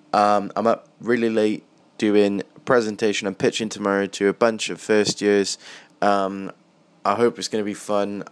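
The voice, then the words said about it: Extremely tired-sounding voice. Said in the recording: “as you can tell from my voice, I am extremely tired”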